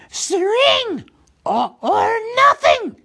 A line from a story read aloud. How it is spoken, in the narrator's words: shrieked Gollum